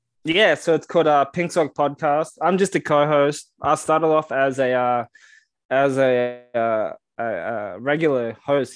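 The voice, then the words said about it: Australian accent. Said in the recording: “he wants an Australian on ... He wants your accent”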